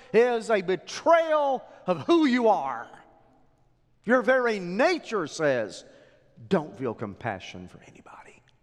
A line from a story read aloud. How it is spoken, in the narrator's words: yells